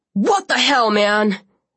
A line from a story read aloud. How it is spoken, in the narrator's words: Zack shouted